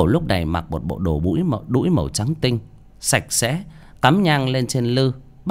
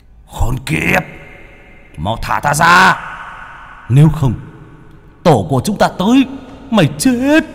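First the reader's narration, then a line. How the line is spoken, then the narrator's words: Monsters' roaring threat. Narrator (Vietnamese): Yêu ma trong tháp gầm thét lên hăm dọa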